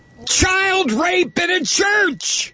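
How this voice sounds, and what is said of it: Yelling. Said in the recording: “I'm yelling again.”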